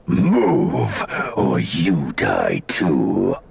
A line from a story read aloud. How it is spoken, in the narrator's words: the Nihil growled, its voice low and strange